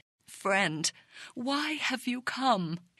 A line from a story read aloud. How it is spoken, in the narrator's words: His voice trembling with sorrow